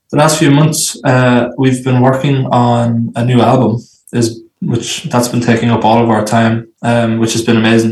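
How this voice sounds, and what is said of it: Irish accent. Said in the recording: “Originally from Ireland ... I love the accent.”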